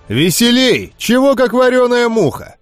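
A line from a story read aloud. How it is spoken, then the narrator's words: Shouting. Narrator (Russian): кричал ниндзя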